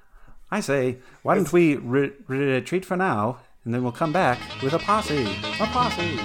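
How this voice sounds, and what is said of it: Put-on British accent. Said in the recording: “I'm a British redneck. This accent's hard to do, Governor.”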